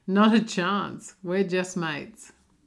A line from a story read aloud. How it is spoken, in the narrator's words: She laughed and said